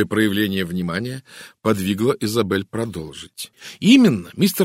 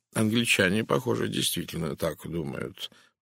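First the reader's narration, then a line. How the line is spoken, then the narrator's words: Mutter. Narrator (Russian): пробормотал Пуаро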